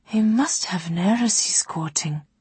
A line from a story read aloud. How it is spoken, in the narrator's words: whispered Sarai